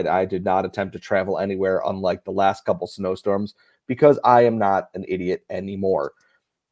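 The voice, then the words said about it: Hoarse, strained voice. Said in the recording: “my voice sounds a little hoarse ... I have been pouring and shouting at a beer festival for the last 2 days”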